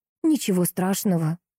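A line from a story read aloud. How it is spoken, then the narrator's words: Tired voice. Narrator (Russian): усталым голосом ответила Анна Суздальцева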